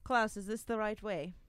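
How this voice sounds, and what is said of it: Imitates another character's accent. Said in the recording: “I definitely did more of a Klaus accent there”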